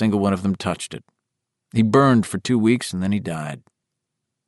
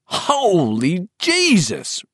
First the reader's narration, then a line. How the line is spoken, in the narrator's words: Ricky Lee cried, horrified